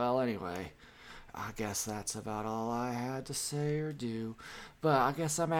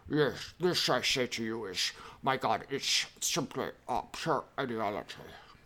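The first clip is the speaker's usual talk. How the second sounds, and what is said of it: Impression of Slavoj Žižek. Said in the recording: “my impersonation of Slavoj Žižek”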